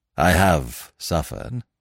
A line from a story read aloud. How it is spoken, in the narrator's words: said Smith gravely